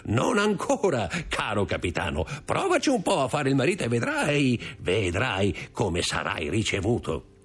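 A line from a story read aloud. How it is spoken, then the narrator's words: Laughing. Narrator (Italian): disse Caderousse ridendo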